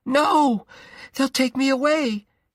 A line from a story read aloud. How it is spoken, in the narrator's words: he screamed